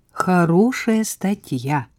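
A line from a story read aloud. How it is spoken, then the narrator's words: Respectful drawl. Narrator (Russian): уважительно протянула Саша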